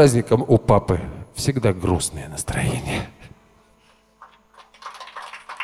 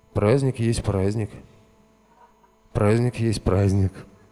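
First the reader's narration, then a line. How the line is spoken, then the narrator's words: Sad repeated murmur. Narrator (Russian): грустно приговаривал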